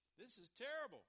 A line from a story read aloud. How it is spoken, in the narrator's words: cried the pig